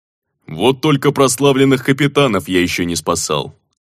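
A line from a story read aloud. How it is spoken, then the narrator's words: Grumbling. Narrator (Russian): проворчал Ок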